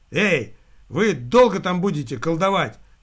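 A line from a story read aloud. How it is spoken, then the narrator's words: Loud booming gravedigger. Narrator (Russian): зычным голосом выдал могильщик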